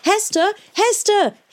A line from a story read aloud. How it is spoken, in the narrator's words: he shouted